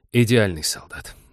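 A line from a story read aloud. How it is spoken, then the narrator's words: Sigh. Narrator (Russian): вздохнул Олег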